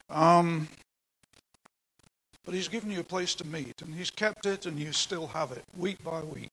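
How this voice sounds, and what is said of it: Speaker with a non-local accent. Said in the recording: “I certainly wasn't here, as you can tell from my accent.”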